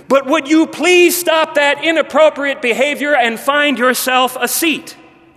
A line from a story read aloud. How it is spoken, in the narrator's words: exclaimed